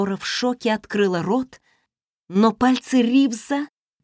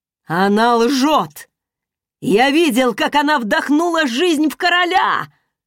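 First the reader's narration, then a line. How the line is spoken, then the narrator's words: Shouting. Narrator (Russian): крикнул он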